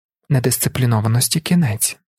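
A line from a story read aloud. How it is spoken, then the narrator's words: Calm repetition. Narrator (Ukrainian): спокійно повторила Гашал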